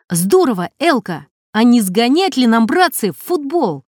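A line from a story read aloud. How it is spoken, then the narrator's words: Shouting. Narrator (Russian): Макар Гусев крикнул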